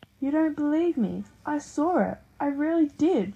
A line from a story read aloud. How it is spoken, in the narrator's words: shouted